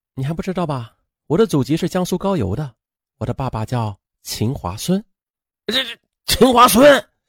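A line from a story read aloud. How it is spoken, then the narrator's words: Flat, indifferent. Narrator (Chinese): 秦冉淡淡的说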